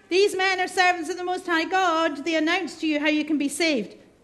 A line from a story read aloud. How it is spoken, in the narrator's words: shouting